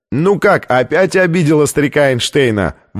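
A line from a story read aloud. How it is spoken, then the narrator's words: Shouted out. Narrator (Russian): выкрикнул один из них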